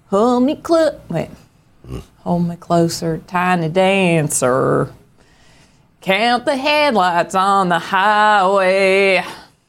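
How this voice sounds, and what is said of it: Singing in a Southern accent. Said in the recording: “I can sing on tune better if I sing in a southern accent.”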